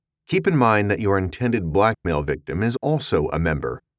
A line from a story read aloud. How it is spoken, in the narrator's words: Dorsey said